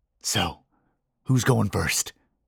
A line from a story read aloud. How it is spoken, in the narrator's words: Johnny whispered